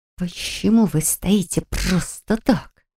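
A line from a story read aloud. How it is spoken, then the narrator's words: Hissed. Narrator (Russian): зашипела я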